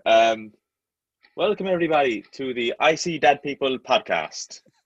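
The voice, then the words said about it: Put-on Irish accent. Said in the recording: “Can you say something in an Irish accent?”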